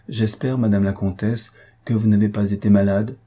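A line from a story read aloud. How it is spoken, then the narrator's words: Timid interjection. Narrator (French): dit-il timidement en se jetant à travers la conversation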